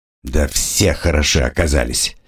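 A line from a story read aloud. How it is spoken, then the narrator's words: Grumbling. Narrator (Russian): проворчал его товарищ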